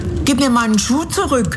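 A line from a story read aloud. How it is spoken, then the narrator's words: Calling out. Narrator (German): rief Dorothy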